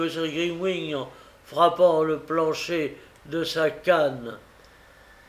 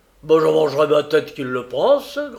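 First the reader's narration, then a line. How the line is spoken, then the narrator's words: Grumbled. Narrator (French): grommela encore M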